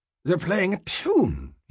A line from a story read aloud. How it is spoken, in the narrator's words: he exclaimed